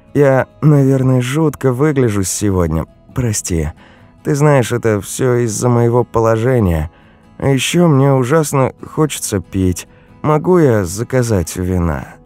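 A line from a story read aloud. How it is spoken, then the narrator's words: Tired sigh. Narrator (Russian): Яночка устало вздохнула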